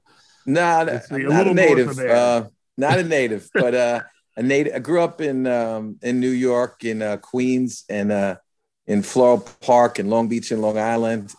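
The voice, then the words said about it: New York accent, mixed with Southern. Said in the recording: “you're not a native of Florida here from hearing your accent ... I get my friends in New York saying that I sound like a Southerner, and I get the Southerners all feeling I'm definitely a Northerner”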